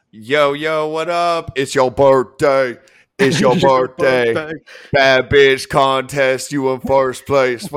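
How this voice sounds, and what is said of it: Imitates a rapper's voice. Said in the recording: “You like my 2 Chainz impersonation?”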